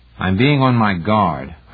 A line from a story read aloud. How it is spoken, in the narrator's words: Heinemann said testily